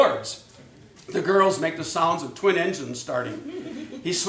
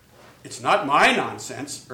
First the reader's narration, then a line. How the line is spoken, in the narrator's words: Irwin says solemnly